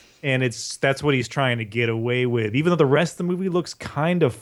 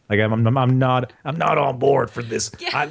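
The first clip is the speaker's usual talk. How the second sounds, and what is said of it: Put-on gravelly old man voice. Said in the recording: “the half worked out old man voice that he's trying to use the whole time ... This is my old man voice. Can you hear it?”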